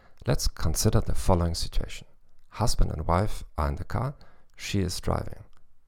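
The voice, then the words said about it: German-accented English. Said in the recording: “in English with a German accent.”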